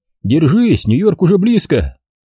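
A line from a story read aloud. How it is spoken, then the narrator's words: Cheerful. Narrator (Russian): Миллер, старший помощник, пародируя рекламный лозунг авиакомпании-конкурента, весело сказал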